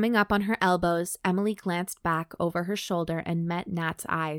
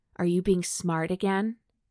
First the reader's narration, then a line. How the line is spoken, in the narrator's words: Nat hardened her tone